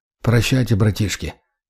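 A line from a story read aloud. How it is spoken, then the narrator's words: Mumbled. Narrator (Russian): пробормотал я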